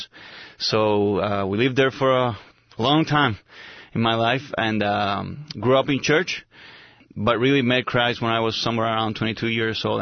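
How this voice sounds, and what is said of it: Spanish-accented English. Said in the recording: “you can notice by my accent already, I was born in Spain, and I grew up in Puerto Rico”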